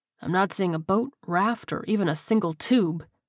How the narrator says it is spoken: he whispered

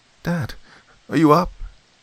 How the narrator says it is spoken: I croaked

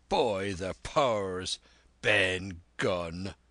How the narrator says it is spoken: roared Silver

